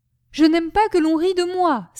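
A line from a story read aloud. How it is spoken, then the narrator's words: Angry exclamation. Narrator (French): s'écria Gribouille, lançant à ces dames des regards irrités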